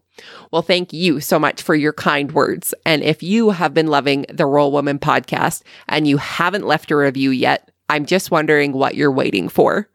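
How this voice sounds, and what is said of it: Canadian accent. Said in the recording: “my Canadian accent”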